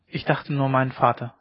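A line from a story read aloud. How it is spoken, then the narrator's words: Plain. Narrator (German): sagte sie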